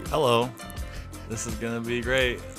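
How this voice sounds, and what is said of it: Nervous, tense voice. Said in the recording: “do you sound so nervous ... Why do you sound under duress”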